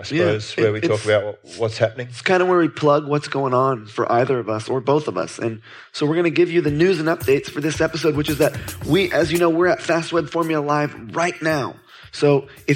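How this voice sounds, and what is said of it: Announcer-style radio voice. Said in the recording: “you're doing your radio voice again ... This special voice reserved for”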